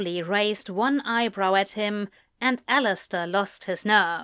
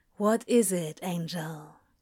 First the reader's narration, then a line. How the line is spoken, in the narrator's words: Crowley asked softly